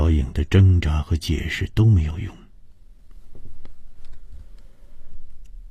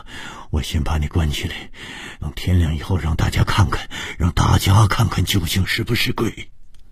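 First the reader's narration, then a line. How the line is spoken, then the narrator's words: Breathless old man speaking. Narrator (Chinese): 老头子气喘吁吁地说着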